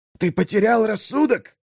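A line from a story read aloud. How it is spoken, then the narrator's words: Furious hiss. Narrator (Russian): зашипел он яростно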